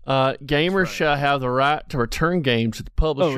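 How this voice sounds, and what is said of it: Put-on Texan accent. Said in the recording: “Why are you reading that in a Texan accent?”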